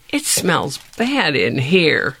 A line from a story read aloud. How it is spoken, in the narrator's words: sputtered Gift